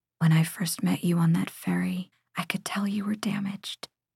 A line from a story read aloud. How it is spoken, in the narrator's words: My voice comes out in a whisper when I say